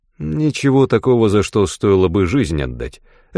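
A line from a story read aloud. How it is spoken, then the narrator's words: Plain. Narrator (Russian): ответил Язон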